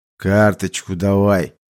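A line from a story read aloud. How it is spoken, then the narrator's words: Relieved exhale. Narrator (Russian): Лех, как мне показалось, облегченно выдохнул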